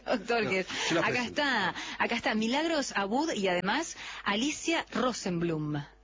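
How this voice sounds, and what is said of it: Radio announcer voice. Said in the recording (Spanish): “voz de locutora ... es locutor”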